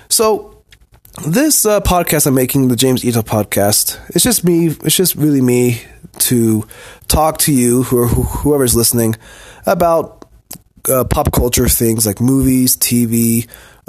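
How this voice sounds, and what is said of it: Slightly husky voice with a cold. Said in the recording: “You just heard my cough. ... I am recovering from a cold, so maybe my voice might sound a little bit more sexy.”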